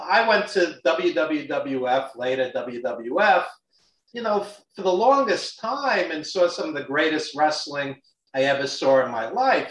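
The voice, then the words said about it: Brooklyn New York accent. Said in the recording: “as you could tell from my Brooklyn accent”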